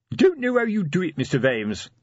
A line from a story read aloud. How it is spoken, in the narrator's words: said Sergeant Colon cheerfully